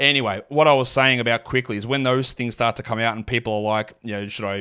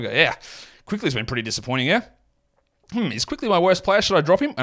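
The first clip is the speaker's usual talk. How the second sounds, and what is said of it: Australian accent. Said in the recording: “That was my natural Australian accent coming out ... full Aussie accent”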